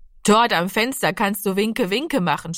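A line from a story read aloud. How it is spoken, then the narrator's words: Mocking. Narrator (German): spottete Zero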